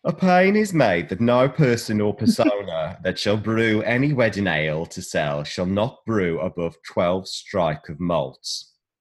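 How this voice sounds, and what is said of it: West Midlands accent. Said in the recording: “I'm going to put on my old birth accent from the West Midlands.”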